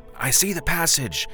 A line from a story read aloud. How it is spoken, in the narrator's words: shouted through the glass